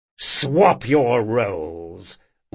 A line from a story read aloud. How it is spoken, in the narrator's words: growled Moncrane